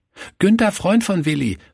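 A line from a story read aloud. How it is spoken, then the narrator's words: Called out. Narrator (German): rief er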